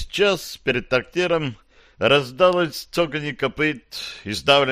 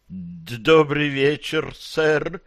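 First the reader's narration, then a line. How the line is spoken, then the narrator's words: Timid babbling. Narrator (Russian): пролепетал Маслютик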